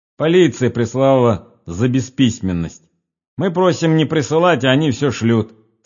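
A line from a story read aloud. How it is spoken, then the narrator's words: Caretaker said angrily. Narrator (Russian): сказал смотритель, сердито косясь на старика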